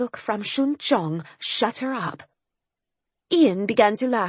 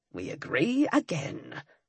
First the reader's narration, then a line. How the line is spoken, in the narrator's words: Ian muttered